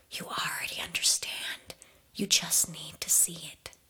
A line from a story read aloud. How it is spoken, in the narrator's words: whispers